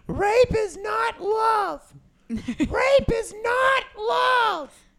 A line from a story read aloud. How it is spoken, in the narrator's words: a woman outside screaming